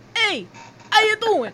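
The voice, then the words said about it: Exaggerated Italian-American accent. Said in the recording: “really exaggerated Italian accent that Joey doesn't have. He has a New York accent... but like a real hard G on the end of it”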